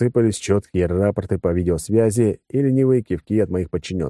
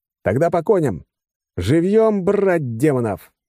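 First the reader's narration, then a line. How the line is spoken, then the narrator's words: Yelled. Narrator (Russian): заорал я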